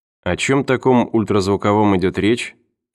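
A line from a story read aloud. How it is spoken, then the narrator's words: Quiet question. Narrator (Russian): тихо спросил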